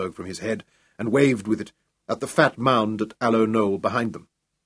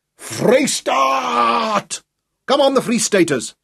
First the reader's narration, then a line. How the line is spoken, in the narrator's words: Echoing his cry, yelling wildly